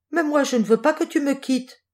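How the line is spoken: Exclaimed. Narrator (French): s'écrie Jules

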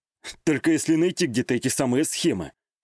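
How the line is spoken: Snorted. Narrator (Russian): хмыкнул

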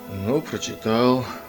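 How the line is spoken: Displeased grumble. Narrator (Russian): недовольно пробурчал Бринкерхоф

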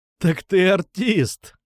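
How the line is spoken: Laughing. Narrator (Russian): рассмеялся я

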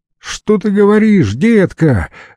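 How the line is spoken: Shout from a distance. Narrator (Russian): закричала Зоя Генриховна из кухни

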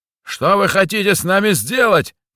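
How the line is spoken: Yelling in clear Russian. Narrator (Russian): На чистом русском заорал Михась

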